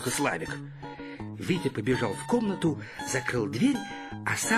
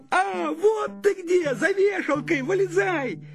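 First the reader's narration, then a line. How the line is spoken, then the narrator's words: Shouting. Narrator (Russian): Славик закричал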